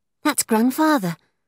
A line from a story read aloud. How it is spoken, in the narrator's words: exclaimed she